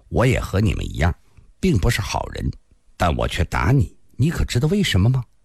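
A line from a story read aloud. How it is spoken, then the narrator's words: Cold. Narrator (Chinese): 蓝蝎子冷冷地说道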